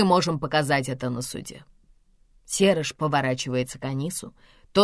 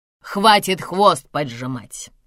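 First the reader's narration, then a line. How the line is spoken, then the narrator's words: Sudden angry snap. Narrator (Russian): Вдруг зло бросает Бенеша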